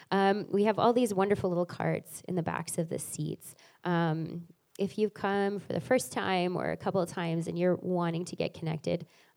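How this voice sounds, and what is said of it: Hoarse, strained voice. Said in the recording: “I'm losing my voice this morning”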